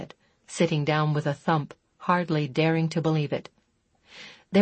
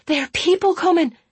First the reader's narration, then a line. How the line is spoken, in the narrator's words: Talia finished excitedly